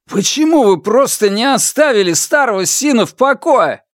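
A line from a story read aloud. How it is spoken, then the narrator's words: Shouted outburst. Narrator (Russian): выкрикнул он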